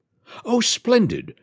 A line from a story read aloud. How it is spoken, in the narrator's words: cried Ruby